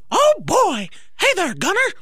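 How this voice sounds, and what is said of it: Mickey impression. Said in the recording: “great at impersonations. ... Like, oddly good. ... you did Mickey. Go ahead and do Mickey again.”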